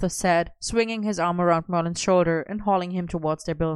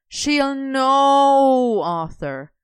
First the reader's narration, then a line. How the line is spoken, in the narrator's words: Merlin groaned